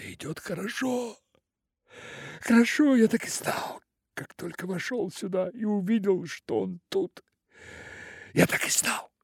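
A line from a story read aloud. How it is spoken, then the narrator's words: Excited mysterious whisper. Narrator (Russian): тихо прошептал, взволнованно и таинственно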